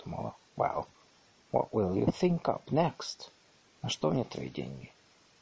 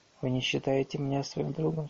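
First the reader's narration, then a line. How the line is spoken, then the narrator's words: Dejected question. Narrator (Russian): спрашивает она уныло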